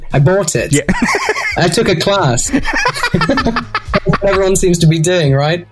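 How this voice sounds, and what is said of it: Southern English accent. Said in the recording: “you've got like the proper British accent ... It's more of a southern accent.”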